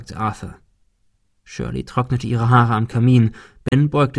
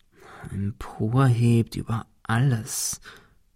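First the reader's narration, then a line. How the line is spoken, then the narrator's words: Murmuring. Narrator (German): murmelte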